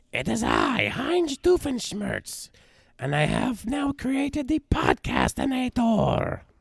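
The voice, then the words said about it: Impression of cartoon villain Doofenshmirtz. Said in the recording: “I don't know how good that impression came across with my voice being like it is, but it's usually pretty good. I actually do a pretty good one most of the time.”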